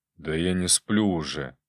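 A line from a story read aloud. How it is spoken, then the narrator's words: Quiet reply. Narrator (Russian): Так же негромко отозвался он мне в ответ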